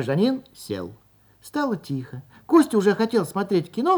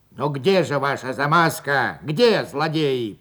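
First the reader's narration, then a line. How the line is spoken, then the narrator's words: Grumbling. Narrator (Russian): проворчал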